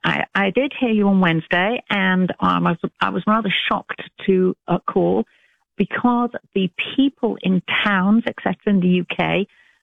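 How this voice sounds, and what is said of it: British English accent. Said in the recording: “you don't sound like you're from Alabama ... I'm British ... Did you hear a British accent or an Alabama accent? ... I love her accent ... I love an English accent”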